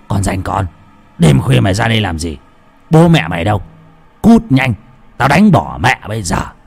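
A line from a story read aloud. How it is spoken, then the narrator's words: Old man's angry shout. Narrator (Vietnamese): Lão quát lên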